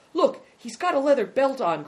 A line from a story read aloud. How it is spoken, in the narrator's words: cried Big Tiger